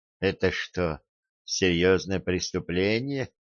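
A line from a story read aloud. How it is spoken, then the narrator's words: Muffled, hollow. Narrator (Russian): глухо произнесла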